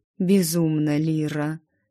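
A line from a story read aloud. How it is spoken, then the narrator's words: Quiet utterance. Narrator (Russian): тихо вымолвил главный портной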